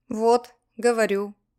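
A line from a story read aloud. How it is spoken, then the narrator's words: Grumbling. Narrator (Russian): пробурчал я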